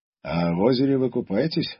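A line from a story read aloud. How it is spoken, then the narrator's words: Plain question. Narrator (Russian): спросил Андрей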